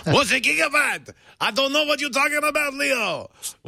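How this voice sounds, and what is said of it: Regis Philbin impression, French accent. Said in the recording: “You have to do Regis with a French accent.”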